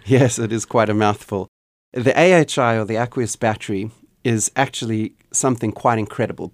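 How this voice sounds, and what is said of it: Mixed South African, Canadian, Australian accent. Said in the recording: “born in South Africa ... spent 18 winters in Canada ... picked up a little bit of an accent, a Canadian accent there ... de-thawing in Australia for the last 4.5 years. So I have an accent that confuses people on every single continent”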